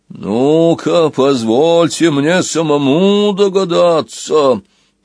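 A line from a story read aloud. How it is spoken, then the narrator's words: Booming, bell-like. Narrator (Russian): прогремел голос, вибрируя точно исполинский колокол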